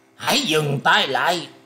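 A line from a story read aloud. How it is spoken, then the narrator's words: Loud shout. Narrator (Vietnamese): người che mặt bèn quát to lên rằng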